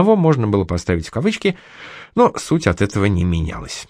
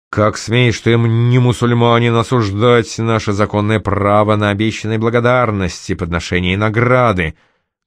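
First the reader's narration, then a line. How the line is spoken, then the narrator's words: Menacing, several voices. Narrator (Russian): Грозно обрушились все трое стражников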